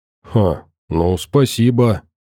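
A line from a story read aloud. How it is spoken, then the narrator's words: Hoarse wheeze. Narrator (Russian): прохрипел Шонг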